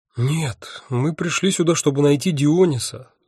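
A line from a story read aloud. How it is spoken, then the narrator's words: Sighing. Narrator (Russian): вздохнула Афина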